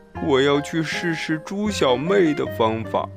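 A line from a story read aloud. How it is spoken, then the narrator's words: Sighing. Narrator (Chinese): 斑马叹气道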